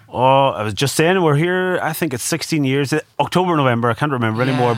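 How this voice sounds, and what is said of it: Warm, rich Donegal Irish accent. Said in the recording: “That is a lovely, warm, rich Donegal accent we've got.”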